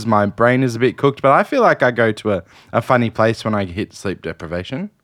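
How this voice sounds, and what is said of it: Worn-out, strained voice. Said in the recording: “Your voice is gone. ... my voice is a bit cooked. I spoke for 24 hours.”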